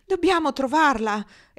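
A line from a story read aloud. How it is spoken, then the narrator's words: Exclaimed. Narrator (Italian): esclamò Lou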